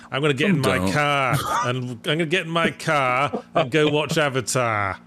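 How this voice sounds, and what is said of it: Put-on Bostonian accent, heavy rolled R. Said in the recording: “that just sounds like Ben Affleck talking about Avatar. ... He's like a Bostonian. ... Like a pirate.”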